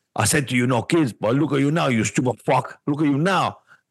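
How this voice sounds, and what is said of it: Bad Tony Montana Scarface impression. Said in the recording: “bad Scarface impression”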